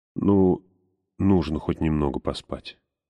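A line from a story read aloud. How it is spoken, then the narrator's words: Female mumble. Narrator (Russian): пробормотала Ламия Брон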